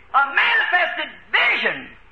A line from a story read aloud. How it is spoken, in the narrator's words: he cried out